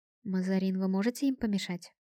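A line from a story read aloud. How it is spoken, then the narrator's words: Quiet question. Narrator (Russian): тихо спросила капитан Лукия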